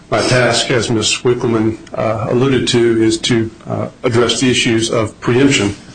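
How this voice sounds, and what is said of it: Noticeable non-local regional accent. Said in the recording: “As the court will no doubt detect from my accent, I'm not from this neck of the woods”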